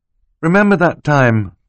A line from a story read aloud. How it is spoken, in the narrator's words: Klaus said wistfully